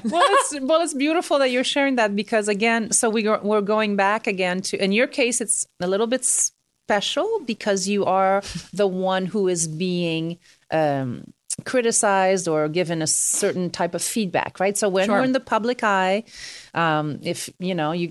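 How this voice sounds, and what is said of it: French accent. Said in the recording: “with like French accent because it's French”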